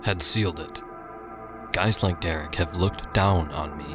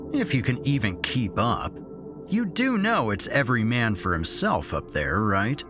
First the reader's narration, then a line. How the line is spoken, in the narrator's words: Derek had said, sneeringly